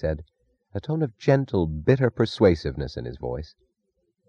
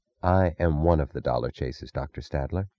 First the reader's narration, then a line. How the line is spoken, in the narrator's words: said, her voice low